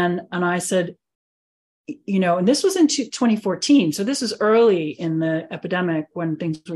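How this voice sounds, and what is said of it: Usual voice. Nothing is said of it.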